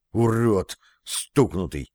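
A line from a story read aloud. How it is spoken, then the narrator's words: Breathless exhale. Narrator (Russian): выдохнул Андрей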